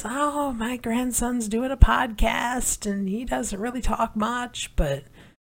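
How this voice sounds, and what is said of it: Imitates an elderly grandmother's voice. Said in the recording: “terrible grandma impersonation.”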